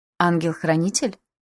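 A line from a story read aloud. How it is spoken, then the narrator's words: Questioning repeat. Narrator (Russian): переспросил сэр Энтони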